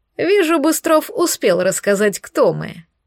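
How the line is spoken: Fanatical laugh. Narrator (Russian): рассмеялся фанатично

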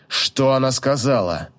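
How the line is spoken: Near growl, mage. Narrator (Russian): Практически прорычал маг

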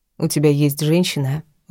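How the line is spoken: Very calm question. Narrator (Russian): очень спокойно уточнила

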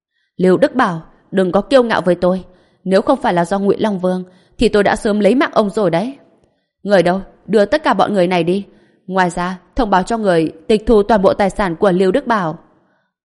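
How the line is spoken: Angry shout. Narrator (Vietnamese): Lâm Sung nghe vậy thì sắc mặt xa sầm, hét lên

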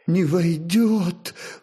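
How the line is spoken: Sobbing, princess. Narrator (Russian): всхлипнула княгиня

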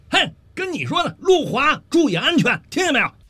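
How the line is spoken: Second shout. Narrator (Chinese): 这第二遍喊

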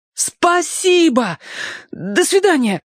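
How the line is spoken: Shout. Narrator (Russian): крикнул Алешка

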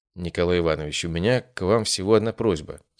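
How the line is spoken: Calm. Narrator (Russian): спокойно произнес я

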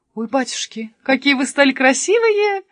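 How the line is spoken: Exclamation. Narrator (Russian): воскликнула она

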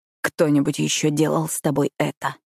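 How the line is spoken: Rasping. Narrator (Russian): прохрипел он

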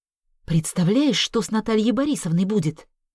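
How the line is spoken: Angry whisper. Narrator (Russian): зло прошептала Вера

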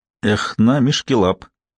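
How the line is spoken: Quiet. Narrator (Russian): тихо сказала она

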